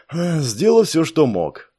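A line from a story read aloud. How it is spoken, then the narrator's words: Tired sigh. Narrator (Russian): устало вздохнул Саш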